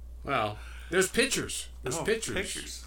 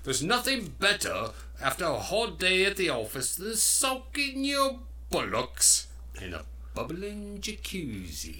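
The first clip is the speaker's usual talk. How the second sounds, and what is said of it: Put-on English accent. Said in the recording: “You've got the world's best English accent I've ever heard in my life.”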